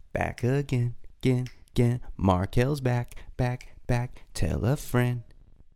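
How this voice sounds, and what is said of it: Bad impression of a rapper. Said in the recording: “the worst Eminem impression of all time”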